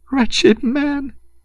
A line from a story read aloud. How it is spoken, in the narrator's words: she sobbed despairingly